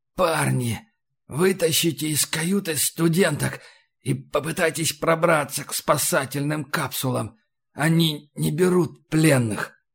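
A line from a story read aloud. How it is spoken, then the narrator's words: Hoarse wheeze. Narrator (Russian): Он прохрипел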